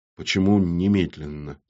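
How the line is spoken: Quiet question. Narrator (Russian): тихо спросил портной

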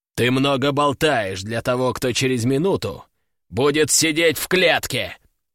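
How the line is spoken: Growled. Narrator (Russian): прорычал Гром

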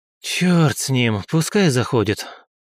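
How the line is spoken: Deep sigh. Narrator (Russian): глубоко вздохнул

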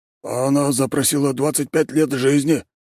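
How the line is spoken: Frightened answer. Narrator (Russian): испуганно ответил Тимофей Робертович

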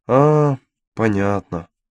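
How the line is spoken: Sad. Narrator (Russian): печально сказал епископ

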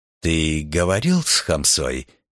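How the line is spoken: Plain. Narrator (Russian): спросил кардинал

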